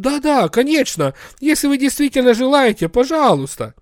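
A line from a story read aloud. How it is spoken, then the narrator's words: Confused. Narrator (Russian): Работники реанимации растерянно проговорили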